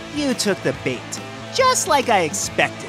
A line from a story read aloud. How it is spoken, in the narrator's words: cackled